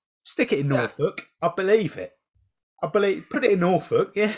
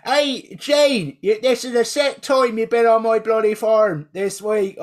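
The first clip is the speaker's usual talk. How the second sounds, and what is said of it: Put-on rural farmer accent. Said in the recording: “a really good farmer accent”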